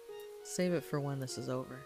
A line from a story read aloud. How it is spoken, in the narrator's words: he said with a small laugh